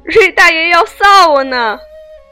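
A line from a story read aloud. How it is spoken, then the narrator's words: Laughing. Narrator (Chinese): 炕上那人笑道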